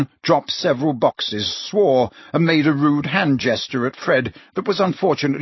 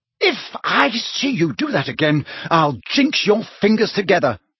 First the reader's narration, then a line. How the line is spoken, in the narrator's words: she said sharply